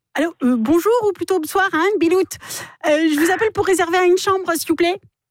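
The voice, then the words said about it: Put-on northern French accent. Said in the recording (French): “Accent du Nord”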